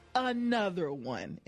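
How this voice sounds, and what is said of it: Imitates another person's voice. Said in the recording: “in my DJ Khaled voice.”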